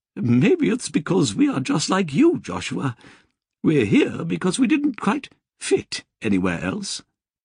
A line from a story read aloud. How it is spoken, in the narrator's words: she laughed and said